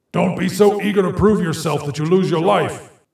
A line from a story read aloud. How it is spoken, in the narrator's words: Augustus shouts